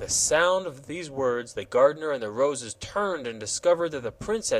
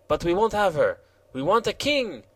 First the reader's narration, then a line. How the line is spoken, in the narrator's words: exclaimed the Jacques Rose